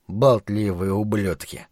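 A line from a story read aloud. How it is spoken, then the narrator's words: Muttering with stuffy nose. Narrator (Russian): пробормотал охранник с насморком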